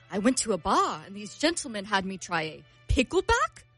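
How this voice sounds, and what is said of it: Very bad put-on British accent. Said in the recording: “You have a terrible British accent. That is about the worst British accent I've ever heard. ... It's so bad.”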